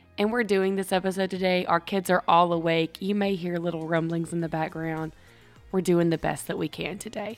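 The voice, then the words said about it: Cracked, unsteady voice after illness. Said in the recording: “I'm coming off from being sick ... My voice is probably going to go in and out ... cracked voice and all”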